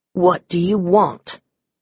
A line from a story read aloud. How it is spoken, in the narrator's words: I growled